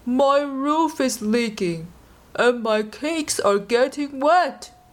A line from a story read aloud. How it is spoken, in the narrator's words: he moaned